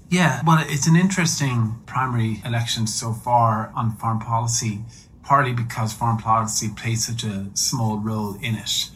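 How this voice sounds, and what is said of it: Irish accent. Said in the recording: “As you'll hear from his accent, ... is originally from Ireland”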